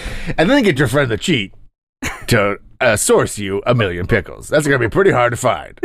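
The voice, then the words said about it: Cartoon character voice impression. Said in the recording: “That's my cheat impression.”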